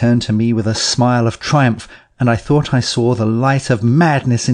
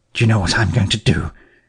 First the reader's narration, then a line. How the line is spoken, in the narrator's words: he said in a low voice, putting his lips close to my ear